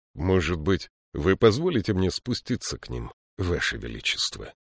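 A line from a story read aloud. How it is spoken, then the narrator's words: Quiet suggestion. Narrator (Russian): негромко предложил Гудвульф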